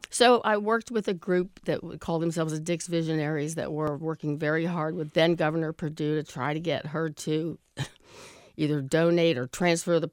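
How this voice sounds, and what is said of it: Hoarse, gravelly voice. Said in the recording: “sorry for my voice... come on with a cold... I was hoping this would be my, you know, Kathleen Turner gravelly voice, but I think it's more B. Arthur”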